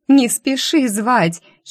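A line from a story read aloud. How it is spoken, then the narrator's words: Giggle. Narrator (Russian): хихикнула я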